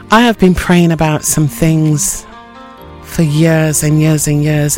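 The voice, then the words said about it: Low-sounding voice. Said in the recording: “My voice sounds a little bit low”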